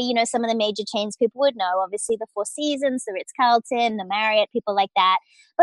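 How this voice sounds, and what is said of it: Australian English accent. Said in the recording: “as an Australian, you can hear the accent, I'm sure”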